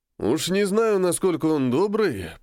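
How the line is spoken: Grumbling reply. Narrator (Russian): проворчал он в ответ

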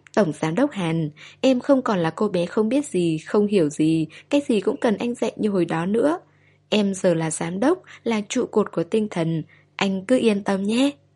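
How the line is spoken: Smiling. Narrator (Vietnamese): mỉm cười, nói

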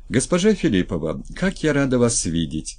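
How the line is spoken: Sincere joyful exclamation. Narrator (Russian): Искренне, лучась зелеными глазами, воскликнула Третьякова

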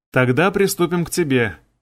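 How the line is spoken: Gleeful, grinning. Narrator (Russian): радостно оскалившись, сказал я

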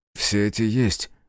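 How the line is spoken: Grumbling mutter. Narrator (Russian): буркнул Алекс

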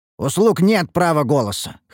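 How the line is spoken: Dismissive snort. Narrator (Russian): хмыкнул я

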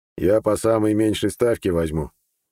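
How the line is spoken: Wry grunt. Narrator (Russian): хмыкнул лекарь

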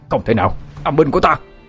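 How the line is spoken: Shouting. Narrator (Vietnamese): Thầy Trạch Dương la lên

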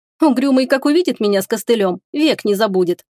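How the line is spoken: Giggling. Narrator (Russian): Лая хихикнула

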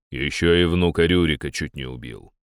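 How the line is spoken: Deep bass voice. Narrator (Russian): пробасил в сторону Дир

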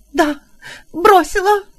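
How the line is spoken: Sobbing. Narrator (Russian): зарыдала Буан

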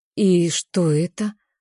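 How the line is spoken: Soft question. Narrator (Russian): спрашиваю я мягко

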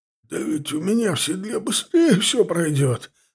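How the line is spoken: Hoarse wheeze after throat-clearing. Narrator (Russian): откашлявшись, просипел Чанов

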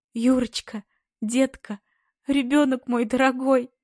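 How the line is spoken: Sobbing. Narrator (Russian): Рыдает она

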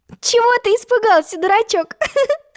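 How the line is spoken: Female laughing. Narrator (Russian): засмеялась Алиса

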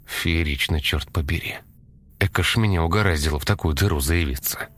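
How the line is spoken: Muttering. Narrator (Russian): Пробормотал он

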